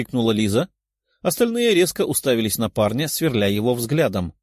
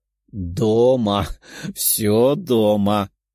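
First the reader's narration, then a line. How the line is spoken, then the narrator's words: Young man laughing loudly. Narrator (Russian): расхохотался парень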